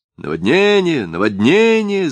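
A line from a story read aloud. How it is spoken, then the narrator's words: Shouted. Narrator (Russian): заорала Леша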